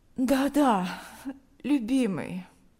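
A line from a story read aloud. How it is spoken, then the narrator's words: Sleepy. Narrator (Russian): она сонно ответила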